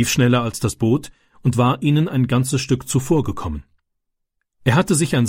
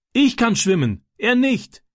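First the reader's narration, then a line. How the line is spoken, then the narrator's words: Called back. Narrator (German): rief Francis zurück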